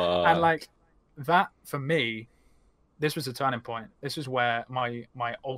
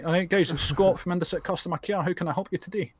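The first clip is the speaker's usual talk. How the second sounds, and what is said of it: Put-on Scottish accent. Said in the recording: “if you put on a Scottish accent”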